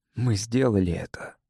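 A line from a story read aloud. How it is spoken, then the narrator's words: Quiet. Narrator (Russian): сказал он негромко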